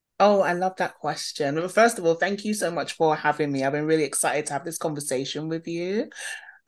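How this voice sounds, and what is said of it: London English accent. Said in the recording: “you can probably hear from my accent, born and bred in London.”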